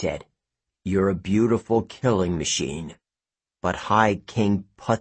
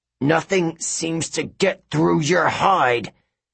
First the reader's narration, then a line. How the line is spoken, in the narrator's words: Hercules grunted in the lion's ear